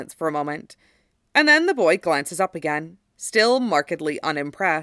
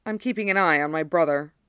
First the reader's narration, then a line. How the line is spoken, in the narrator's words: says flatly